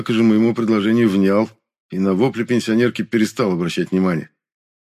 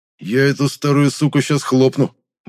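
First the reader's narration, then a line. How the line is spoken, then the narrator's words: Menacing angry growl. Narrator (Russian): угрожающе прорычал худой, зло стискивая челюсть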